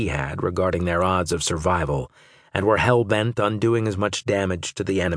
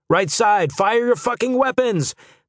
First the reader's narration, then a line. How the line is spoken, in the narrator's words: The shout came from somewhere down the line